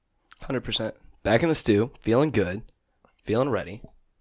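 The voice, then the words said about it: Slightly hoarse, fading voice. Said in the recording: “Losing my voice a little bit”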